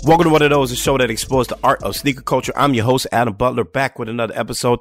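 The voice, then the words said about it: Slightly raspy, off voice. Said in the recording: “forgive my voice, okay? Over the weekend, I had a pretty bad sinus infection, so my voice is a little raspy. ... Voice is just a little off.”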